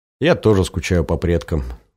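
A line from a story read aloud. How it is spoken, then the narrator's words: Wistful sigh. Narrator (Russian): вздохнул Женька, который последнее время все чаще вспоминал родителей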